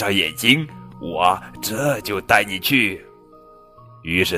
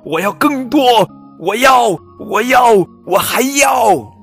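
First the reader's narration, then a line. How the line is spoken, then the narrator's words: Loud shouting. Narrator (Chinese): 比利大声喊着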